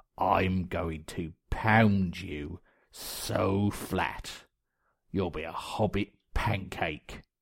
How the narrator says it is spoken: the ogre snarled

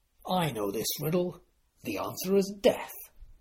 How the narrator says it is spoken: sneered

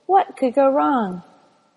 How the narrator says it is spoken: Octavia sighed

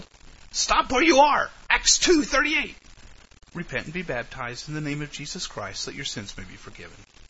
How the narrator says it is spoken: a woman's voice yelled

